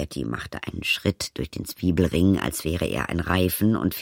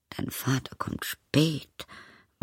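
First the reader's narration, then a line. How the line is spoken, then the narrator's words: Murmured. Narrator (German): murmelte Hamelie wieder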